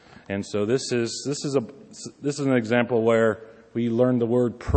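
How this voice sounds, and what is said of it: Usual voice. Nothing is said of it.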